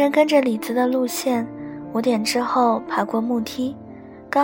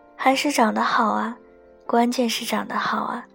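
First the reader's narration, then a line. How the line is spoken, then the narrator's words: Envious sighing. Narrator (Chinese): 我和张萌萌羡慕的一直感叹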